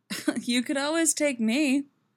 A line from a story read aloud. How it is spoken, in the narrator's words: she laughs